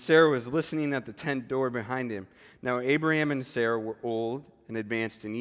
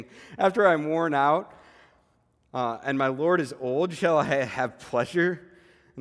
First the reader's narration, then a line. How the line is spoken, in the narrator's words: Sarah laughed to herself, saying